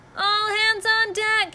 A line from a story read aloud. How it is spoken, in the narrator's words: he yelled